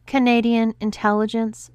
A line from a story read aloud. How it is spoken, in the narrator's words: she sighed, rolling her eyes in exasperation